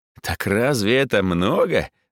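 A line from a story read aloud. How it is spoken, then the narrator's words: Loud laughter. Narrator (Russian): захохотал Боря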